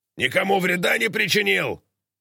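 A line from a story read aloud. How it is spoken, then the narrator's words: Roared. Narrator (Russian): проревел он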